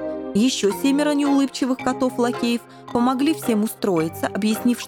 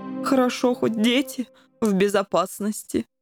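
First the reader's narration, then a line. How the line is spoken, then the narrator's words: Sighing. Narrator (Russian): вздохнул пан Коржик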